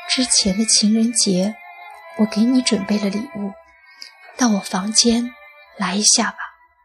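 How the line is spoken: Soft, tender. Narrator (Chinese): 轻声柔语地说

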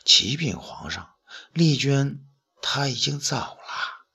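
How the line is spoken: Quiet. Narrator (Chinese): 徐甲呢小声说道

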